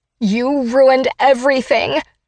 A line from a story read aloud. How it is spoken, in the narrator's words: she snarls